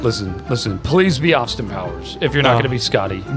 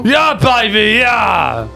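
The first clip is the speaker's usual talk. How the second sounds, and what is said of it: Austin Powers character voice. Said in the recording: “your best Austin Powers impersonation.”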